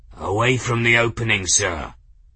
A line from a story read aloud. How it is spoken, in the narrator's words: Kettle was saying, his voice rough